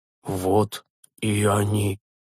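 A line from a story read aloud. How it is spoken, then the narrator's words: Soft whisper. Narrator (Russian): тихо прошептал отец Флатис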